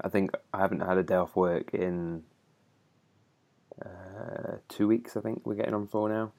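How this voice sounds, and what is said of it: Tired, monotone voice. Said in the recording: “So I'm just tired... if I'm a bit like monotone and a bit more than normal”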